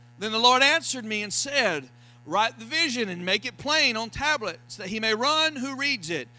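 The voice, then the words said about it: Florida accent. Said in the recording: “My Florida accent gets in the way of some of these Hebrew words.”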